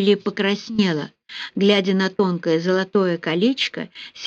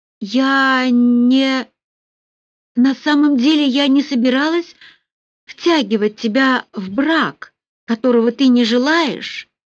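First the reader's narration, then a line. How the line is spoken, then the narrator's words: Trembling shout into phone. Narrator (Russian): дрожащим голосом выкрикнула она в трубку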